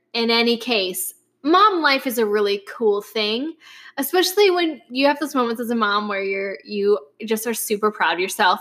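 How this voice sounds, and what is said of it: Upper Midwest American accent. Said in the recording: “if you hear an accent, it is because I have a mother who is from Wisconsin ... my dad's from Minnesota. So that's why you hear my accent.”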